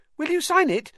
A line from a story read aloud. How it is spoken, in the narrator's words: said Colin eagerly